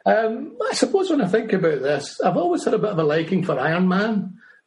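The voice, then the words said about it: Scottish accent. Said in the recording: “As you might have noticed from my accent, I'm not from the US. I live in Fife in Scotland.”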